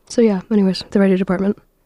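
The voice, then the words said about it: Strained, worn-out voice. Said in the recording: “My voice is just shot for some reason.”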